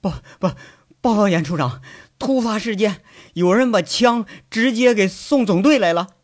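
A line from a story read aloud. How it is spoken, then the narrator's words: Breathless, panting. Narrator (Chinese): 秘书处的人气喘吁吁的，上气不接下气说着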